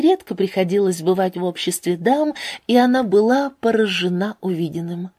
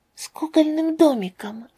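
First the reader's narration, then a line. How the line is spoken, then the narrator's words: Quiet girl's answer. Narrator (Russian): ответила девочка тихо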